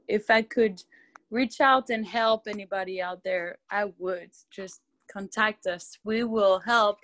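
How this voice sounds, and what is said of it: French accent. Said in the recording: “I love that accent, by the way... Love French accent.”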